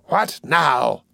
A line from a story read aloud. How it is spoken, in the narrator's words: cried the Jew impatiently